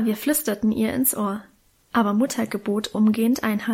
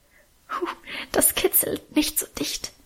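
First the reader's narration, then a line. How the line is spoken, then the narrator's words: Soft laughing protest. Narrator (German): wehrte sie leise lachend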